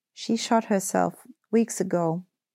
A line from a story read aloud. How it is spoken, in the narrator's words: In a quavering voice, Edwin's sister said